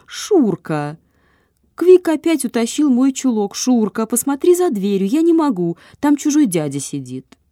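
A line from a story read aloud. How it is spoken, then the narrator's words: Desperate exclamation. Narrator (Russian): тот же голос в отчаянии воскликнул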